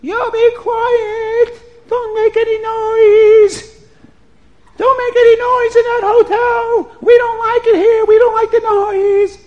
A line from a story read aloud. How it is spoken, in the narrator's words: when it got a little bit noisy, the neighbors next door would scream out